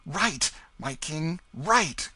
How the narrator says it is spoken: cried

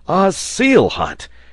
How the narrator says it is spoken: cried the sailor

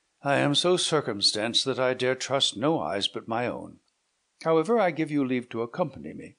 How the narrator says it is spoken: continued he with a sigh

